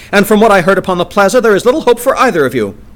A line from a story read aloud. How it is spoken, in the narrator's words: she cried